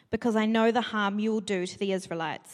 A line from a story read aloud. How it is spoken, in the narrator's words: he answered